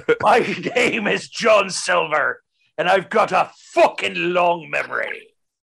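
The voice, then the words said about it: Impression of a pirate character. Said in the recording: “does a great impression of John Silver”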